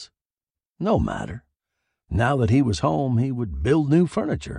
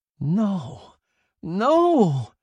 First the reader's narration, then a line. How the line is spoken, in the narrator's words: he cried soundlessly